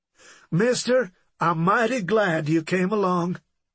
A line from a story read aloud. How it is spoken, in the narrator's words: Mamie exclaimed